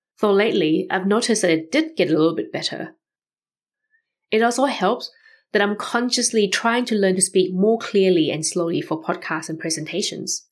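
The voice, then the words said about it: Non-native accent of unclear origin. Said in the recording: “I do have an accent, but it's hard to pinpoint where exactly the accent is from”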